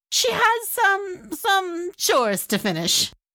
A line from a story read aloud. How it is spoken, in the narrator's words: Lala Shima stammered